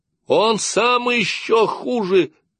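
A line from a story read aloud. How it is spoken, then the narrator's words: Shouting. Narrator (Russian): крикнула Дубравка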